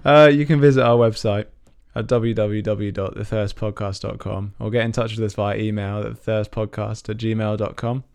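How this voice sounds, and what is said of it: Croaky, strained voice. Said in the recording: “I've got a bit of a frog in my throat”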